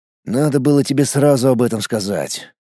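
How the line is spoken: Sighing. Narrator (Russian): вздохнул я

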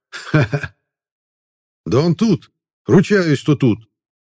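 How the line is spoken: Excited shout. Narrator (Russian): кричал

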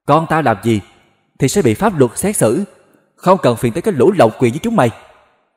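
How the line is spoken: Hot-tempered shout. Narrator (Vietnamese): Chủ tịch tập đoàn X nóng máu quát

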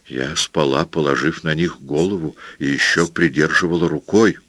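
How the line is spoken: Plain. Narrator (Russian): ответила ему Пилар

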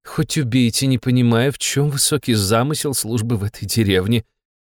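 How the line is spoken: Sigh. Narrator (Russian): вздохнула Фанвизина

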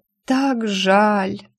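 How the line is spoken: Moan, hopeful whisper. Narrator (Russian): простонала и с надеждой прошептала

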